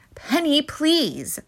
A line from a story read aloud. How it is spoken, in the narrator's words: Mom cried out